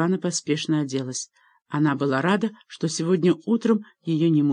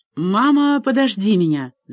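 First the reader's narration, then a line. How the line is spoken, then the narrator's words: Shout. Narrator (Russian): закричал Алекс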